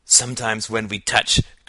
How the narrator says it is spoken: cried Al

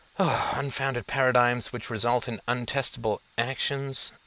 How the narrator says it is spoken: he murmured

